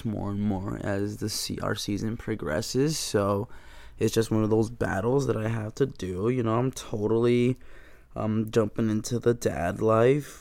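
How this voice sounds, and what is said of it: Hoarse, strained voice. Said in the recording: “I've been sounding a little hoarse these last couple of episodes ... a sore throat ... I've just been actively raising my voice”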